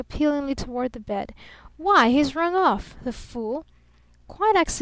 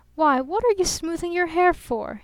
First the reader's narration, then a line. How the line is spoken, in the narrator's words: He called out accusingly